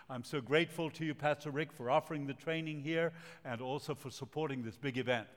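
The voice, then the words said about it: Latin American Spanish accent. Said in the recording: “I speak with an accent. I was born in Latin America, the city of Montevideo, country of Uruguay, and uh, my parents are from Argentina.”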